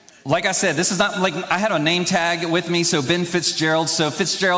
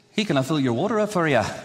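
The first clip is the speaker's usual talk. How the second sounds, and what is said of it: Put-on Irish accent, not very good. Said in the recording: “I would pretend to be Irish... it's not the best accent, I know.”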